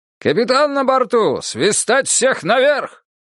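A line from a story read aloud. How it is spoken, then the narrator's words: Booming proclamation. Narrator (Russian): старпом шхуны лейтенант Якимович громовым голосом провозгласил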